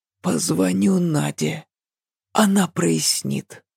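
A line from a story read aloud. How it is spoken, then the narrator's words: Whisper. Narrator (Russian): прошептал он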